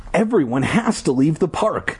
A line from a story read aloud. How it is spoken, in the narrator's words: Ashley cried